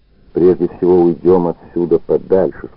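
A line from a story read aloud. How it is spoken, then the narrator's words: Plain. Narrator (Russian): сказал Плотников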